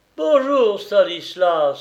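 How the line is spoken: Exclaimed. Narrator (French): s'écria-t-il

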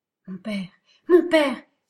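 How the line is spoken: Woman crying out from fog. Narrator (French): s'écria une voix de femme, partant du milieu du brouillard

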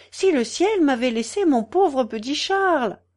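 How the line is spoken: Exclaiming. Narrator (French): s'écria

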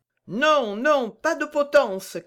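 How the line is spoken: Crowd shouting. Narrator (French): cria la majorité

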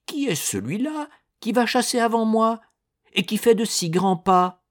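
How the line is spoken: Shouted. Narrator (French): cria-t-il

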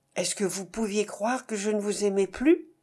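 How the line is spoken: Low, caressing voice. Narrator (French): Elle répondit d'une voix basse, pleine de caresses

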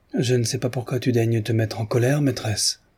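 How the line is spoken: Gently remarked. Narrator (French): fit observer doucement Mavra

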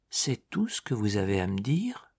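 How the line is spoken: Murmured. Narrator (French): Madame de Guilleroy murmura

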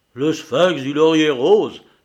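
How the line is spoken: Shocked exclamation. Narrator (French): s'écria monsieur Duvilliers en pâlissant

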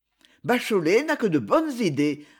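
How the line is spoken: Laughing agreement. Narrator (French): appuya Gaston en riant

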